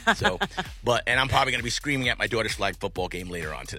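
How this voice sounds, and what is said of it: Hoarse, partly lost voice. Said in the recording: “I lost my voice. I'm actually slightly getting it back”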